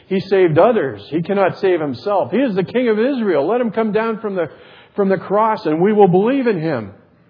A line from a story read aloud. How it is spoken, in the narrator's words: the chief priests and the scribes and elders mocked him, saying